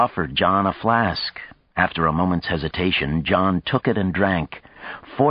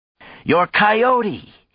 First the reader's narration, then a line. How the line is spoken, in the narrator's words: shouted over the music of the magnesium drum band